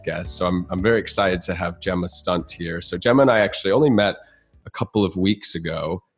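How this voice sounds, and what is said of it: Congested voice from a cold. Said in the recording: “If you can't tell, I have a little bit of a cold”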